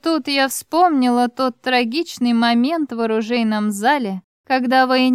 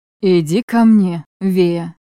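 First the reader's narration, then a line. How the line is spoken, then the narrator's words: Hoarse command. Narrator (Russian): приказал хрипло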